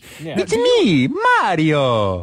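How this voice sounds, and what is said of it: Mario voice with Italian accent. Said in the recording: “the Mario that we all know ... with the Italian accent”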